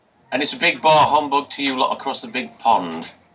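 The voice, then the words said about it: Exaggerated proper English accent. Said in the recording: “I love your accent... It's very, very, very English. Very quintessentially English... You're so proper... I'm kind of putting it on a little bit.”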